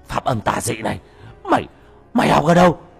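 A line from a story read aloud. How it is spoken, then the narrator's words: Frightened cry. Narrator (Vietnamese): Nó hoảng sợ kêu lên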